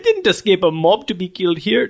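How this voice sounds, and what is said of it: Terrible Nightcrawler accent impression. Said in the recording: “it's a terrible accent”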